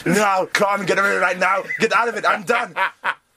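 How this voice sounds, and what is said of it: Arnold Schwarzenegger-style voice impression. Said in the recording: “you do a great Arnold Schwarzenegger”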